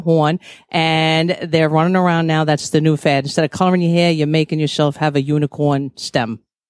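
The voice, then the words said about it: Very thick New York accent. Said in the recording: “the thickest New York accent we've ever had on the show”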